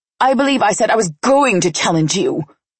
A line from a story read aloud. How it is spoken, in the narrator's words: Maria spat